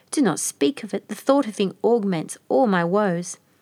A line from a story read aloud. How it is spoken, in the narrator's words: cried Babiole, sighing